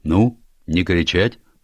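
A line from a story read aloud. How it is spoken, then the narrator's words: Stern. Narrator (Russian): строго сказал адмирал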